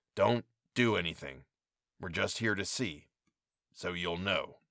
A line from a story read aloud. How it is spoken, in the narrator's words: Leon growled